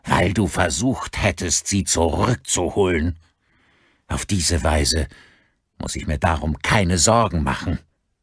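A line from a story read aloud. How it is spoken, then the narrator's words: Thundering voice. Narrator (German): donnerte Gavin Daly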